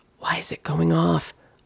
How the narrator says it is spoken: Amelia whispered back

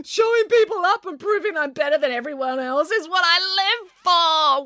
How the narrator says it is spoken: wailed Nanny Ann

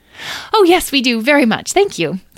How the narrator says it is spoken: said, eagerly

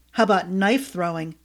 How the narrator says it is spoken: Yates growled

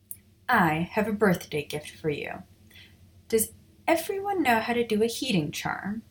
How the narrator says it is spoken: she asked

